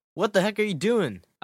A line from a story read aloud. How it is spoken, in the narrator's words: I yelled in fright